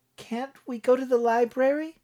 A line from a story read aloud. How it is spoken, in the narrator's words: Brianne pleaded